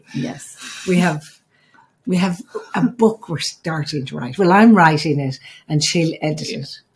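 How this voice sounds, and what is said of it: Speaks with an accent. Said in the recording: “it's my accent”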